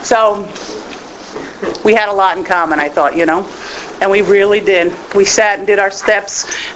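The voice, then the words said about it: New England accent. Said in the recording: “Since I'm from New England, you know, you got that little funky accent thing going on”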